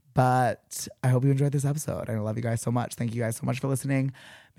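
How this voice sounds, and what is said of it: Hoarse, partly lost voice. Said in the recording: “my voice is a little bit gone.”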